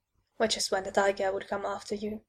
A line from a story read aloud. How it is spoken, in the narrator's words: I said quietly